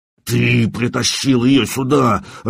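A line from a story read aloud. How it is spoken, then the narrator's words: Furious spitting growl. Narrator (Russian): рычал жнец, брызжа слюнями в лицо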